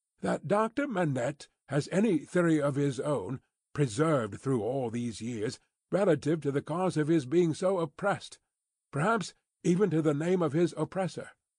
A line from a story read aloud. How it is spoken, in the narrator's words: Lorry went on, with a laughing twinkle in his bright eye